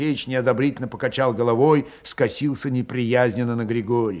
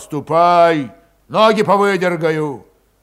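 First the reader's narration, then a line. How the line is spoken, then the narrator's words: Menacing threat. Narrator (Russian): Григорий недобрым голосом пообещал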